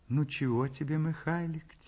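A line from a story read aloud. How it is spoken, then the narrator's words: Soft tender question. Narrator (Russian): тихо, ласково спрашивает мать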